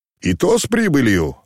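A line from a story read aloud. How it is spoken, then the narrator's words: Cheerful shout. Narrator (Russian): весело крикнул черноглазый мещеряк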